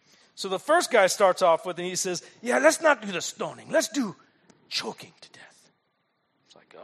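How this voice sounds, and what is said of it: Usual voice. Nothing is said of it.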